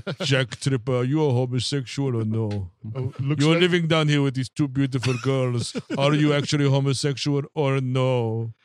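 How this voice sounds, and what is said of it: Don Knotts impression. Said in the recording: “my Don Nuts impression”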